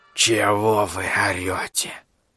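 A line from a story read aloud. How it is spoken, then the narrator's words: Creaky voice. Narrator (Russian): проскрипел Гаруда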